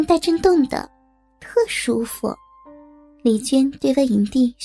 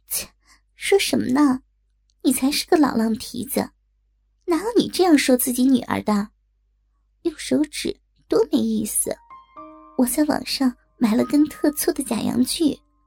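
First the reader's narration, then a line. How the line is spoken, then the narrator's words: Laughing. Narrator (Chinese): 万影帝笑着说道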